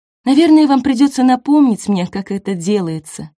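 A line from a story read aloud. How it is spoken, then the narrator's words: Sighing. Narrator (Russian): вздохнула Нина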